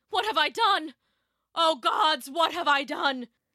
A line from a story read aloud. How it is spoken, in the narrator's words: he cried